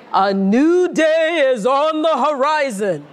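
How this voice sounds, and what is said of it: Oprah Winfrey impression. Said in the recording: “Very good that Oprah impersonation.”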